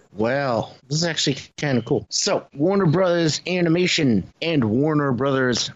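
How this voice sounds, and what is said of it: New England accent. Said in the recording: “man, my New England accent's coming out”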